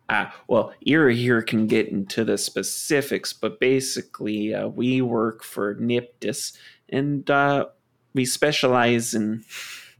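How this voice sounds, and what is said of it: Put-on accent drifting toward Minnesotan. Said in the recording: “My accent keeps drifting to Minnesota.”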